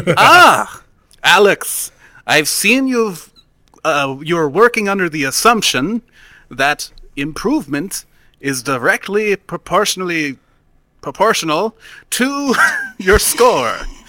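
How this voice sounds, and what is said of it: German scientist character voice. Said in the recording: “my best German scientist impression.”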